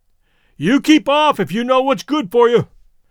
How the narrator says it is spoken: called out suddenly, as though he had made up his mind

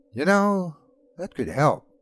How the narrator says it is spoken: he said finally, his voice thoughtful

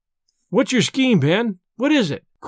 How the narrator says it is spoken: cried they all

